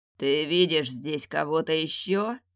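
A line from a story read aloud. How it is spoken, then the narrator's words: Growl. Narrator (Russian): прорычал он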